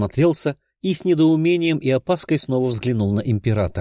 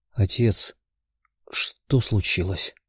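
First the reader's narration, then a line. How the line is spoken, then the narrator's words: Sleepy quiet question. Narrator (Russian): сонным тихим голосом спросил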